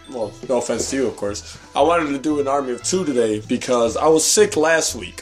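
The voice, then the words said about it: Hoarse, mostly lost voice. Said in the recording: “I ended up losing my voice ... I don't know if I can help carry an episode with this voice”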